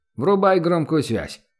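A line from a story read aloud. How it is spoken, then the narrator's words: Barked at full strength. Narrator (Russian): откликнулся тот, глубоко вдохнув, рявкнул, что из силы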